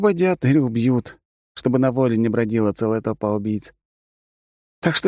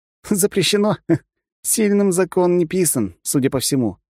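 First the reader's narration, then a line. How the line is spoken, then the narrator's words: Wry snort. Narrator (Russian): хмыкнул я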